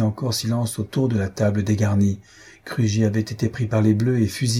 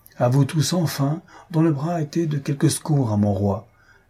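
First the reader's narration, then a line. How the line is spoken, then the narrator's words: Rapturous exclamation. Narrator (French): s'écria le marquis dans son transport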